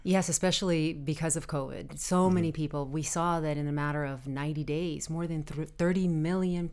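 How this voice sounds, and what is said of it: Lower, scratchy voice. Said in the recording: “I'm dealing with a little bit of allergies ... my voice is a little bit lower and a little scratchy, so I might cough”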